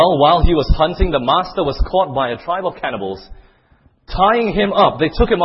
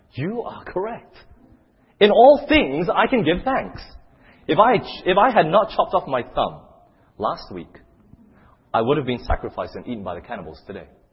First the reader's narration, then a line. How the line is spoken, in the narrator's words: he exclaimed